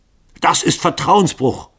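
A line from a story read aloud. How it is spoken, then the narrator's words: Angry shout. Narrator (German): rief Lycoville zornig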